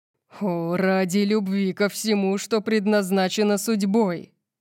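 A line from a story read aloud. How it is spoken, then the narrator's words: Growl. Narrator (Russian): прорычал он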